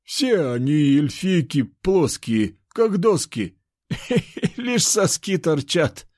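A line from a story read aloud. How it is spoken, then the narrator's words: Guffawing. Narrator (Russian): хохотал он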